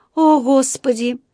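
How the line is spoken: Dismayed sigh. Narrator (Russian): вздохнула миссис Браун, потому что раздался треск рвущейся ткани

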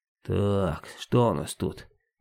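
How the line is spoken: Robber's purring under breath. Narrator (Russian): мурлыкал под нос грабитель

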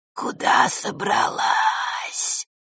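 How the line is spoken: Hissing female voice. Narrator (Russian): зашипела одна из них, самая близкая к Василисе

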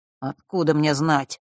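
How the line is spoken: Irritated mutter. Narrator (Russian): раздраженно пробормотал он

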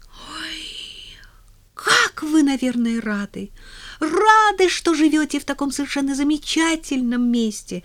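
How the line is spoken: Girl exclaiming delightedly. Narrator (Russian): С восторгом воскликнула девочка

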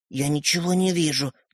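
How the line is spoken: Whisper. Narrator (Russian): прошептал Светлик

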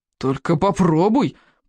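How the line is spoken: Warning grumble. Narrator (Russian): предостерегающе проворчал червяк безмозглый

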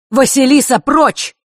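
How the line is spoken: Architect's sharp shout. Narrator (Russian): выкрикнул зодчий

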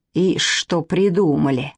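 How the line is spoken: Grumbling under breath. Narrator (Russian): ворчал про себя Мышкин

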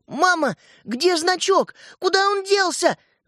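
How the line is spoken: Desperate shout. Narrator (Russian): в отчаянии закричал Светлик

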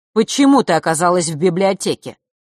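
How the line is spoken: Stern fatherly question. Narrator (Russian): строго спросил отец

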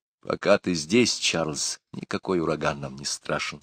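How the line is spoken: Plain. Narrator (Russian): сказала мама

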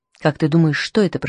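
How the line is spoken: Whisper. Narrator (Russian): прошептала она

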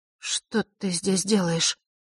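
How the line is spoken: Confused mutter. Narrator (Russian): растерянно пробормотала она

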